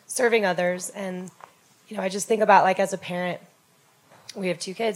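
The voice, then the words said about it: Hoarse, fading voice. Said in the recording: “losing my voice.”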